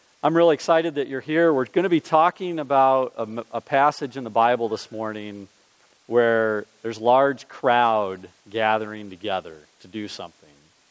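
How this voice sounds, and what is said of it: Strained voice from a cold. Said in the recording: “I'm praying that my voice is going to hold out this morning. I'm getting over a cold and it's kind of on the edge.”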